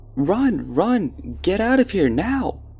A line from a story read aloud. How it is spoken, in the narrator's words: he screamed louder than a girl and made Greg and I scream as well, and shouted to us